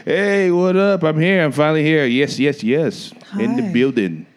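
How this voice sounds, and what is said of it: Smooth radio-host voice. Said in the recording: “I love your radio voice that you put on just now. ... That's your smooth talking voice.”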